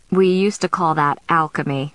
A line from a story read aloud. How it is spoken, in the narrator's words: she said